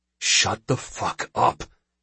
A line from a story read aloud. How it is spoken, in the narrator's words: he whispers in Chalot